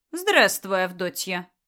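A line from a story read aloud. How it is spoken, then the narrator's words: Dry, curt old woman. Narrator (Russian): Сухо поприветствовала ее старуха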